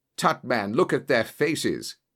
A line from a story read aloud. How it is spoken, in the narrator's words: cried Holmes curtly